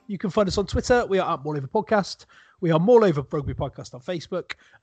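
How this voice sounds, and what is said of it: West Country English accent. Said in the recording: “all with a West Country accent.”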